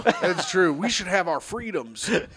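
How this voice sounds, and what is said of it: Imitates another person's voice. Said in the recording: “Wow, what an impression. ... That's a good impression.”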